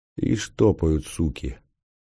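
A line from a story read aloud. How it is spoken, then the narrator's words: Quiet mutter. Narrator (Russian): тихонько пробормотал мнимый пограничник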